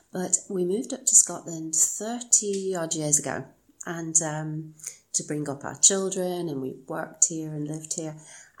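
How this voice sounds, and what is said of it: English accent, not Scottish. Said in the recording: “I've never really quite adopted the accent. I think in Scottish and it comes out English.”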